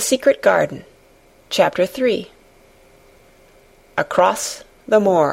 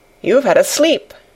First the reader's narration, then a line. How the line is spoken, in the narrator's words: she said